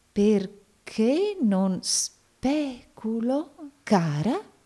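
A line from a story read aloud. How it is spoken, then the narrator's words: Doubtful tone. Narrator (Italian): disse il signor Nickleby in tono di dubbio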